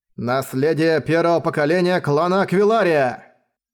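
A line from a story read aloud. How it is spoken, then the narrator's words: Roaring. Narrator (Russian): взревел он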